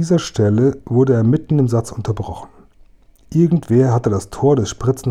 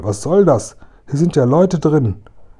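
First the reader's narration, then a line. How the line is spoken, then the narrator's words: Called out. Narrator (German): rief Kasperl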